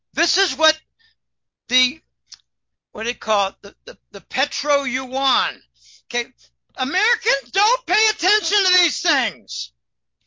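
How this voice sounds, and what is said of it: Yelling, loud excited voice. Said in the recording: “Sorry for yelling.”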